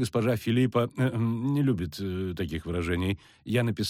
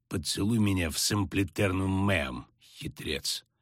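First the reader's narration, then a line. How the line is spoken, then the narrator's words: Grumbling. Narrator (Russian): проворчал Дикстра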